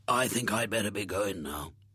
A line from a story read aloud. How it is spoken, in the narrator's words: said in his hoarse voice